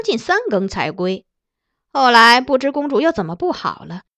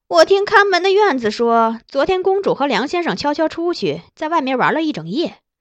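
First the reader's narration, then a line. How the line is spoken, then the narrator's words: Sneering laugh. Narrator (Chinese): 杨夫人嗤笑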